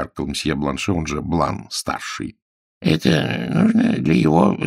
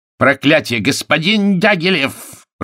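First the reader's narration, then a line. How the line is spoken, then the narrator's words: High-pitched irritated shout. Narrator (Russian): прокричал он высоким от раздражения голосом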